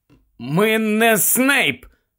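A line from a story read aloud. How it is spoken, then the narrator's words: Hoarse rasp. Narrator (Ukrainian): прохрипів Гаррі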